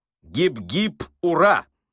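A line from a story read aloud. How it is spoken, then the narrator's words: Shouted. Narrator (Russian): закричал Остап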